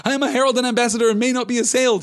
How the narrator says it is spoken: he cried

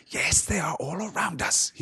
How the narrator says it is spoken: he whispered

